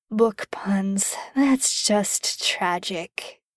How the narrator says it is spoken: he muttered

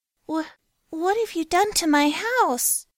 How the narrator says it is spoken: She squeaked

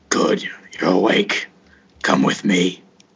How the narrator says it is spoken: the one that's right next to your door, who looks at you and growls out

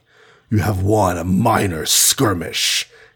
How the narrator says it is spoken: snarled

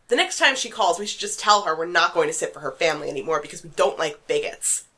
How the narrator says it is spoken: said hotly

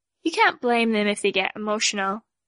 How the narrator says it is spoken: Tattletail sighed

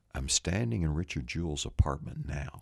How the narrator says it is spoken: he whispers, he said

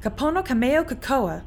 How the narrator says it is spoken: without thinking, I blurted out

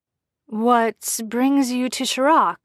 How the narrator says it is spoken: Jensen asked nervously

